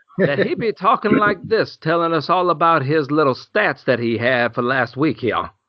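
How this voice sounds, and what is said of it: Foghorn Leghorn cartoon voice. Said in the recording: “You just turn in the foghorn leghorn?”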